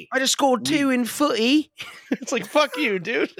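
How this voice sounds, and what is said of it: Put-on British accent. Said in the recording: “With the British accent.”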